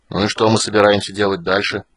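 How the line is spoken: Grumbled mutter. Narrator (Russian): пробурчал Флинт

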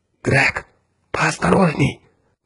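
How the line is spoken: Whisper. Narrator (Russian): прошептал Кертис

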